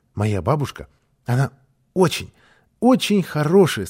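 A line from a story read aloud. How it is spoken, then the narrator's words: Plain, child's voice. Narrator (Russian): сказал малыш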